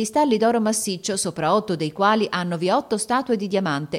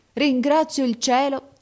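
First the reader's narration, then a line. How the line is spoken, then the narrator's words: Exclaiming. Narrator (Italian): esclamò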